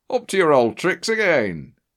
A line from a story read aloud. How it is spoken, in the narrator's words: He laughed